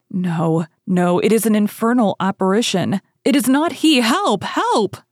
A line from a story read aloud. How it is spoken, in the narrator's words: screamed she